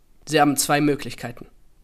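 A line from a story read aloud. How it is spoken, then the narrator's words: Plain, curt. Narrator (German): sagte er nur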